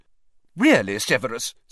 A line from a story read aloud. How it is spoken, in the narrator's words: said Professor McGonagall sharply